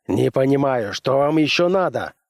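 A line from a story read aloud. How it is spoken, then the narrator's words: Snapping general. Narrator (Russian): огрызнулся генерал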